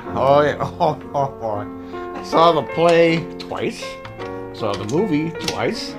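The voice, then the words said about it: Strong New Jersey accent. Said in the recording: “I'm the one with the cheesy, joisy accent. ... It's the cheesiest, joisy accent you've ever heard in your life.”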